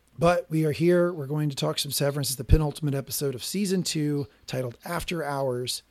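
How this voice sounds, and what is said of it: Voice slightly off, not fully recovered. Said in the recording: “you could tell my voice is still a little bit sideways ... I start out really bad, a little better next week, a little better this week”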